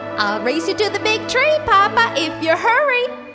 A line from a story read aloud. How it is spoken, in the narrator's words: squealed Baby Bear